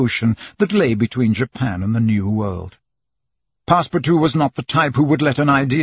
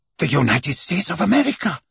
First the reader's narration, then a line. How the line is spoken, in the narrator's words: exclaimed Passepartout